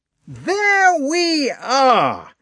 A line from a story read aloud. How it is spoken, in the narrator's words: Rostopchin shouted at Pierre louder than before